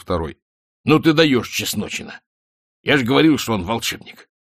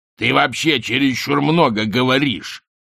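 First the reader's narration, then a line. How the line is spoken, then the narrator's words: Growled. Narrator (Russian): прорычал главарь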